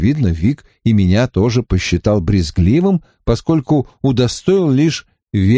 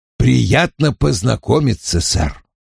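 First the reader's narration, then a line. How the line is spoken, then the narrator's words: Grumbling. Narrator (Russian): проворчал Вульф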